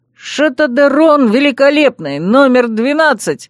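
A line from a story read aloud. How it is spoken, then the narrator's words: Loud squeaky proclamation. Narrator (Russian): провозгласил он громким песклявым голосом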